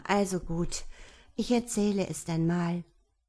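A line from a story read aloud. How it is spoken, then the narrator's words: Sigh. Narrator (German): seufzte Hella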